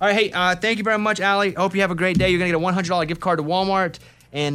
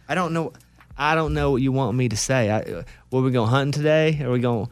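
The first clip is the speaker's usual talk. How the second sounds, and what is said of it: Thick regional accent. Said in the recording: “It's all G's and I's ... There's nothing wrong with that accent ... your accent's thick”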